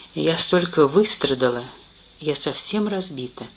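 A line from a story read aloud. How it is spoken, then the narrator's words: Quiet. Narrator (Russian): Она тихо ответила ему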